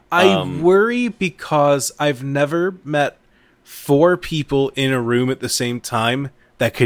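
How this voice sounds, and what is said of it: Usual voice. Nothing is said of it.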